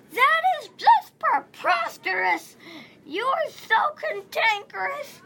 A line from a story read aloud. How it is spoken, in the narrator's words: He shouted